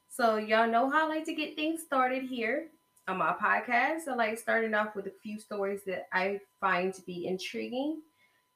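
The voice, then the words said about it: Hoarse, strained voice. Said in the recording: “I sound weird today. ... It sounds so weird. ... you sound weird right now. ... my laryngitis is going to probably pop up and I'm going to be a horse”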